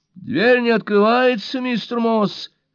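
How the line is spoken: Shout through a door. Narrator (Russian): крикнула Лойс сквозь дверь

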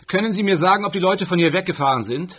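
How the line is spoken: Called out. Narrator (German): rief ich

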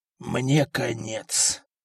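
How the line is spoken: Doomed, hopeless whisper. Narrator (Russian): обреченно прошептал Приск, вся надежда которого была на эту поездку

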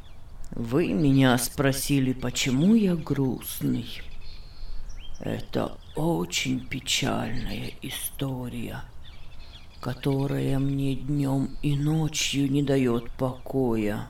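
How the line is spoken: Deep sigh, then speaking. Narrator (Russian): глубоко вздохнув, сказал

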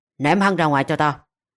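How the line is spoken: Cold command. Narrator (Vietnamese): Tạ Trinh lạnh lùng ra lệnh

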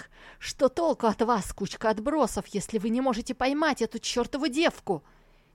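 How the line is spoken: Harsh shout. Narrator (Russian): Он прикрикнул на своих подданных

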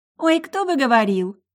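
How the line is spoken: Laughing. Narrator (Russian): засмеялась соседка

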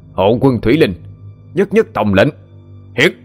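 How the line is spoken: Wild domineering growl. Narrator (Vietnamese): tiếng gầm gừ mang dại, tràn đầy bá khí

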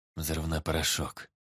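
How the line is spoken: Quiet. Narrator (Russian): тихо сказал он

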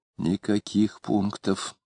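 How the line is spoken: Heated whisper. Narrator (Russian): горячо шепнула Варвара в ухо мужа

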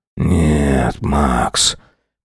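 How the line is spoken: Whispered, giving in. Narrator (Russian): прошептал, внезапно сдаваясь

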